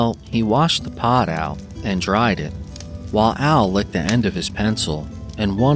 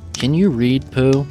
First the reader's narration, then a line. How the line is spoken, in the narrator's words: he asked a little anxiously